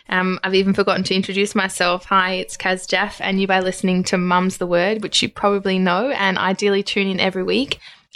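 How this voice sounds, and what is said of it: Excited, enthusiastic voice. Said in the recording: “hear the excitement in my voice”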